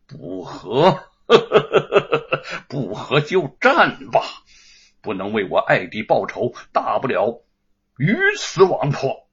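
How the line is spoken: Laughing, murderous. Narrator (Chinese): 严嵩心下杀机涌现，哈哈一笑

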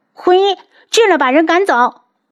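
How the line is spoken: Flustered shout. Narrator (Chinese): 他有些心慌，对着外面大叫

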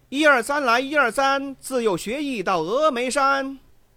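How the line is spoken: Loud straining yell. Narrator (Chinese): 扯着嗓子高声叫喊

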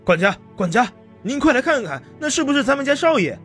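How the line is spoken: Calling out. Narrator (Chinese): 另一个护院喊住

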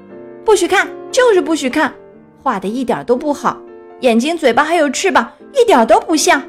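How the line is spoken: Loud yelling. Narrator (Chinese): 他对小鸭大声嚷道

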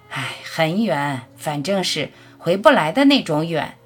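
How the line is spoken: Soft sigh. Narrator (Chinese): 母亲就微微叹口气

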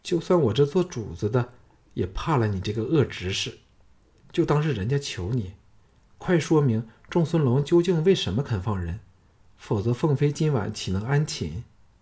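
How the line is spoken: Helpless sigh. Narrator (Chinese): 凤飞拿他没法，叹道

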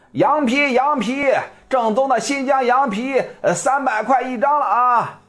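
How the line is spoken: Loud hawking. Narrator (Chinese): 小伙子大声的吆喝着

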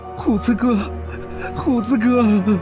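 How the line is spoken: Helpless wailing. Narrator (Chinese): 我只是无助的大哭

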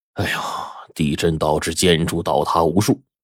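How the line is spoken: Sighing exclamation. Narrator (Chinese): 黑五就感叹说

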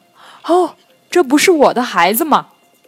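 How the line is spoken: Delighted exclamation. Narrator (Chinese): 他惊喜的叫道

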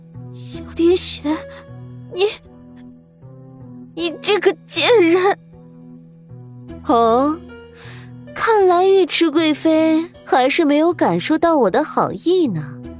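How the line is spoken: Broken, trembling with pain and hatred. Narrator (Chinese): 尉迟妙玉痛得脸色几乎扭曲起来，一张脸上面满是憎恨与怨毒，声音断断续续，甚至痛的带着颤音的说道

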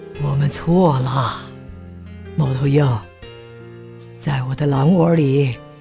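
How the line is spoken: Sighing. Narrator (Chinese): 唉，狼叹了口气，说道

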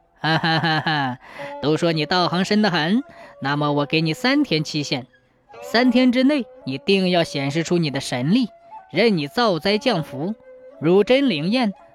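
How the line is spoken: Laughing. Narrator (Chinese): 胡颖 便笑着对蛇神说

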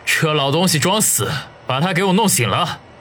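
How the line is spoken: Calmed after anger. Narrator (Chinese): 年轻人这才平静了下来……对中年人说

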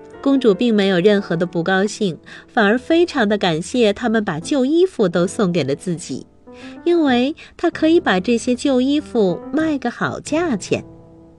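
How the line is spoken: Mocking. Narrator (Chinese): 他们讥笑着对公主说

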